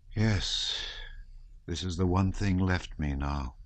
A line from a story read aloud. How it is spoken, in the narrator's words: he said with a sigh